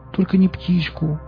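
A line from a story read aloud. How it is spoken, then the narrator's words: Pleading. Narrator (Russian): взмолилась Настя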